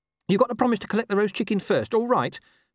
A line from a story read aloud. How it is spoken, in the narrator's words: said Gaspard urgently